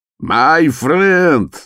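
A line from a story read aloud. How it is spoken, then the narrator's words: Shouted with a smile. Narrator (Russian): закричал он, широко улыбаясь Фолину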